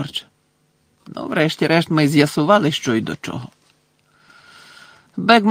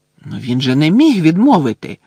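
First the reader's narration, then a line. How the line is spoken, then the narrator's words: Exclamation. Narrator (Ukrainian): вигукнула Герміона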